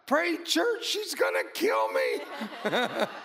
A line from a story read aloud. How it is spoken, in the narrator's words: He screams out